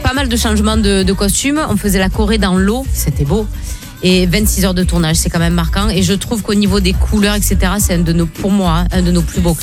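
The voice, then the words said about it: Speaks with a noticeable accent. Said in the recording (French): “Vous entendez mon accent?”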